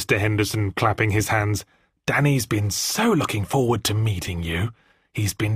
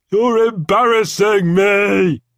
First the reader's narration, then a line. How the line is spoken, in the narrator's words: wailed Daniel